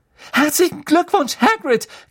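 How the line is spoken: Shrieking. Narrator (German): kreischte Hermine

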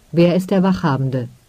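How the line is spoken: Plain. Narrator (German): fragte Tertujak

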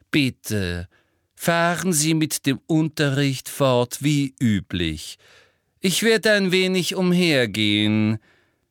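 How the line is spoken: Very loud and slow. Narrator (German): sagte wiederum sehr laut und langsam

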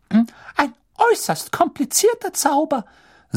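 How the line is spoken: Squeaky voice. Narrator (German): sagte er quiekend

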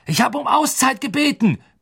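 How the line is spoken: Roaring at the team. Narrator (German): brüllte Woods seinem Team entgegen

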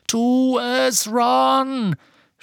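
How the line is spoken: Shouted. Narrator (German): schrie Harry

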